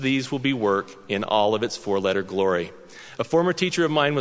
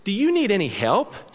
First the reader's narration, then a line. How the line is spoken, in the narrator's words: she asked brightly